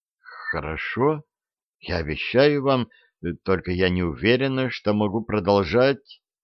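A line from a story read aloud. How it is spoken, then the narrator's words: Weak voice. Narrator (Russian): слабым голосом проговорила Сьюзен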